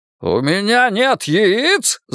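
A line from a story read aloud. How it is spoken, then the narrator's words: Yelling. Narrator (Russian): заорал он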